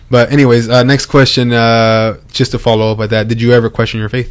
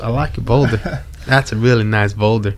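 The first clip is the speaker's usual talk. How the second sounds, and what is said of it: Poor impression of Donkey from Shrek. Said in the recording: “Donkey goes ... Again, I have really bad, what is it, impersonation? ... Really bad.”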